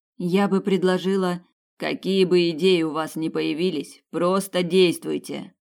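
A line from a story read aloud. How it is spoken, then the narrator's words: Growled. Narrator (Russian): прорычал ван Нистельрой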